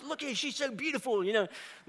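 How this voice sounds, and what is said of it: Poor Steve Irwin accent impression. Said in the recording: “Irwin, the Crocodile Man ... which is a terrible accent.”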